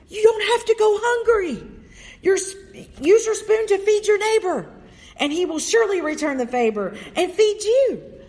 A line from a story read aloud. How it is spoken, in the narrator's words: He shouted to the first starving man he saw